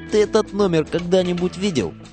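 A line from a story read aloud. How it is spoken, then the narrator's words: Indifferent boy's voice. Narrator (Russian): Мальчишка, что сидел рядом, равнодушно так говорит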